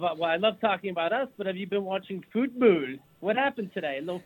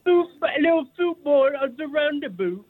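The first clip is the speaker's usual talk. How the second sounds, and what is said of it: Put-on British accent. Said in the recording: “He speaks British. ... This is him speaking British.”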